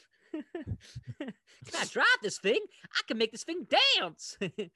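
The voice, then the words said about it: Impression of Danny John-Jules' character. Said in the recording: “You do a really good impression of him.”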